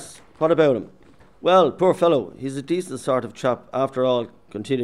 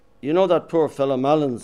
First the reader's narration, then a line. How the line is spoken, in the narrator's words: he said quickly